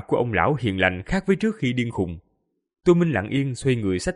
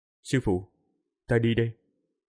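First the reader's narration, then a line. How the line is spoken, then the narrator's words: Quiet. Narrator (Vietnamese): Tô Minh nhỏ giọng nói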